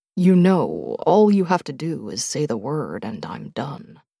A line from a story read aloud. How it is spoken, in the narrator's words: he said softly